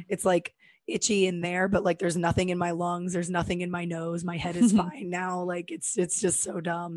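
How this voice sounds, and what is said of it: Raspy, hoarse voice. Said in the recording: “my voice was like this ... sexy voice ... Raspy”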